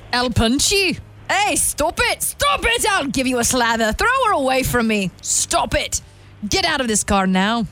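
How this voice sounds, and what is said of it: Put-on Irish accent, sounds Scottish. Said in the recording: “trying to do an Irish accent ... Pretty good ... more of a Scottish accent”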